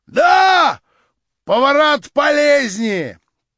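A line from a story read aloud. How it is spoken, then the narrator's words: Shouting. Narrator (Russian): прокричал тот самый семинарист, который был в заседании у Вергинского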